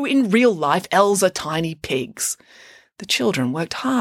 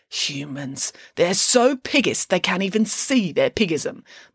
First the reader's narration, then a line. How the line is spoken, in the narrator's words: muttered Nanny Piggins